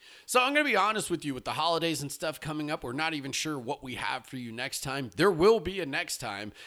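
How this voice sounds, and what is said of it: Usual voice. Nothing is said of it.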